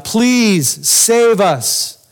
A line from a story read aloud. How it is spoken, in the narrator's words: they're yelling out